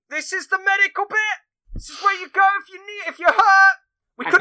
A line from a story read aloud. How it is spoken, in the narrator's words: someone outside just constantly shouting